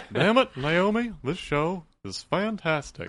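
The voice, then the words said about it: Good Hank Hill cartoon voice impression. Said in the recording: “Hank Hill will be appearing on The Fix. ... That's a great impression.”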